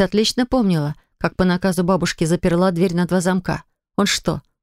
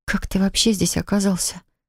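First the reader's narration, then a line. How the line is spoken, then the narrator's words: Strained, choked question. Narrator (Russian): спросила она сдавленным голосом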